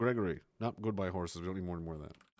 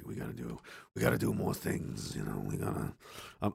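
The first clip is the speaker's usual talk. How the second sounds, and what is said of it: Imitates another person's voice. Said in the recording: “my Harvey Weinstein impression”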